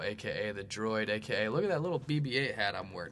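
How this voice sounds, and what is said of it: Imitates his own voice. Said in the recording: “That's my... droid impression. That's my impression of myself, right?”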